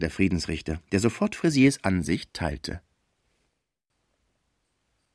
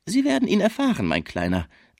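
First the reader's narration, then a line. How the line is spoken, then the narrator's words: Mocking. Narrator (German): sagte Frisier spöttisch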